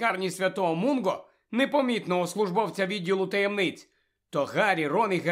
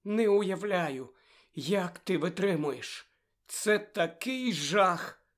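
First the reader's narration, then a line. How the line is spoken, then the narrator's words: Sympathetic. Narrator (Ukrainian): співчутливо мовила вона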